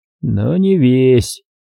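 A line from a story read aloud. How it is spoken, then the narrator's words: Gloomy knowing snort. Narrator (Russian): мрачно хмыкнул, догадываясь Эйхен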